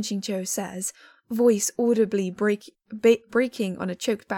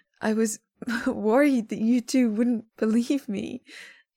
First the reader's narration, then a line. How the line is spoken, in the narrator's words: Shen Qingqiu says, voice audibly breaking on a choked back laugh in the middle of his sentence